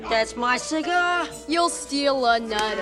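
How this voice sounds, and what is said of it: Heavy overdone New York accent. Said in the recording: “the almost overdone New York accent ... Hard New York accents”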